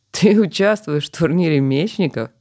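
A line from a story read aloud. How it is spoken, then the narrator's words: Laughing loudly behind. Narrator (Russian): Захохотал за его спиной Дастин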